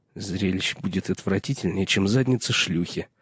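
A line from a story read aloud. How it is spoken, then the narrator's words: Muttering. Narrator (Russian): пробормотал Пип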